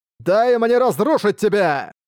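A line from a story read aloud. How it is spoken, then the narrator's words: Furious shout. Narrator (Russian): он яростно крикнув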